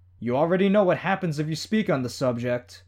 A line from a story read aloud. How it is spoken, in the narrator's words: Glenn called out to them, raising his voice as they got further away